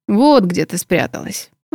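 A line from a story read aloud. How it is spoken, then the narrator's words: Slightly hoarse voice. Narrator (Russian): раздался чуть хриплый голос Моргана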